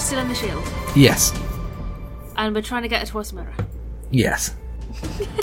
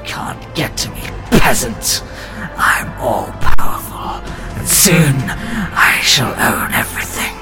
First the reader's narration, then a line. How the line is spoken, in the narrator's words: Malzar just growls and says